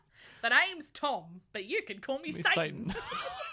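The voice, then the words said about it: Tom Bombadil character accent. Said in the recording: “The accent was exactly what it needed. ... That's Tom Bombadil's accent.”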